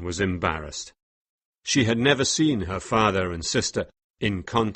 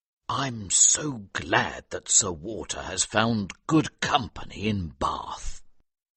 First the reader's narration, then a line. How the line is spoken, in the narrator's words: Elliot said in a low voice